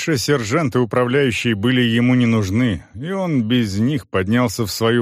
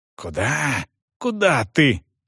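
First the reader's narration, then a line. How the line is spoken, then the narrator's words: Maid's urgent hiss. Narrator (Russian): шипела служанка, пытаясь его остановить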